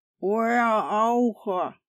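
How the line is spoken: Booming, strained by wounded cheek. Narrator (Russian): прогудел адмирал, стараясь меньше напрягать рассеченную почти насквозь щеку

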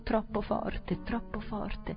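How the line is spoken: Stammering. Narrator (Italian): balbettare

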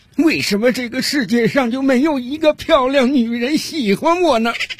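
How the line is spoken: Crying. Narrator (Chinese): 他的哭声

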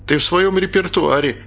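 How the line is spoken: Laughing. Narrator (Russian): засмеялся Костя

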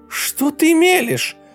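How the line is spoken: Shouting. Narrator (Russian): закричала Ева

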